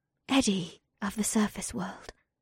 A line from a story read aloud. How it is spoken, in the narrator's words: she breathed